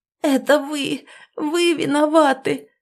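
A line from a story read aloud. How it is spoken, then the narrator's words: Sudden hoarse rasp. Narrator (Russian): Прохрипела она вдруг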